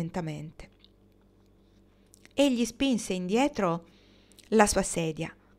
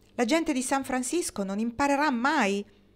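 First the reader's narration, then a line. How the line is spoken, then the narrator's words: Exasperated exclamation. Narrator (Italian): Con voce esasperata, Marnie esclamò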